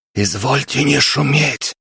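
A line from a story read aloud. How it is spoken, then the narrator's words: Loud whisper. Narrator (Russian): сказал громким шепотом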